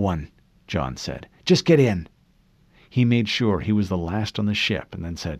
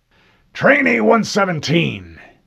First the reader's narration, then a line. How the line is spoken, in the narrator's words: Mendez snapped